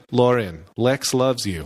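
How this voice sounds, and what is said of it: Imitation of a voice assistant. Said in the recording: “that was a pretty good Siri impression”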